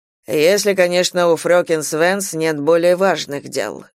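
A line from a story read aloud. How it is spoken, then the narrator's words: Dry, curt. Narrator (Russian): сухо закончил старший констебль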